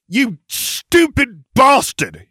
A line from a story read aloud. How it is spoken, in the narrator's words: spat